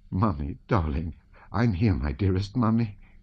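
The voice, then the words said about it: Whispering, tender. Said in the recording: “she kept on whispering, not pausing an instant.”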